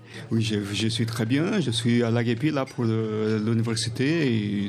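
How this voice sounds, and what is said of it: Brazilian-accented French. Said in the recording (French): “Si tu as un bel accent ... c'est un accent brésilien.”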